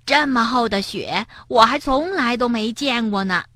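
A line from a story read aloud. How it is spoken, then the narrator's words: Amazed exclamation. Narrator (Chinese): 跳跳惊叹道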